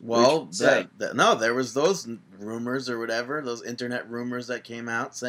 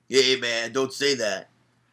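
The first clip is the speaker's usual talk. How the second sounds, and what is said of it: Imitates another person's voice. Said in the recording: “my best Michael Hayes impression”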